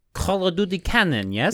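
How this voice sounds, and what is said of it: Unconvincing put-on Russian accent. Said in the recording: “You don't have good Russian accent.”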